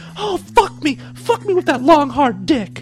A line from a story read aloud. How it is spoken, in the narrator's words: she howled